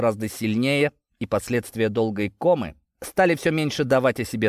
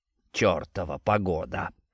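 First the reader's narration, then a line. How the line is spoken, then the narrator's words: Grumbling between sips. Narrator (Russian): проворчал он между глотками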